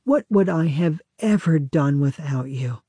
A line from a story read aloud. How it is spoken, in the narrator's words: a bride might sigh